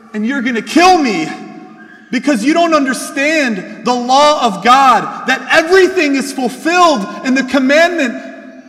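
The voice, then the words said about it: Yelling. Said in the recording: “I'm sorry, I'm yelling.”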